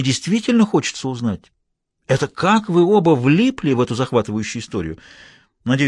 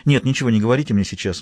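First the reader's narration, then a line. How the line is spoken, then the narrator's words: Quick. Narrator (Russian): быстро сказала она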